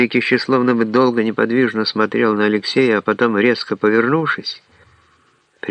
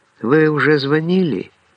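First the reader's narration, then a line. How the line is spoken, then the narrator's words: Warm smiling voice. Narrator (Russian): она, ласково улыбнувшись, сказала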